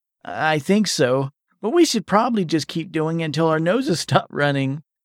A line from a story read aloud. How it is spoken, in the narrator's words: Vernon said, chuckling a tad